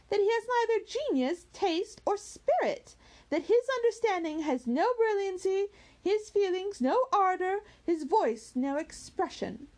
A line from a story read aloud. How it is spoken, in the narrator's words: cried Marianne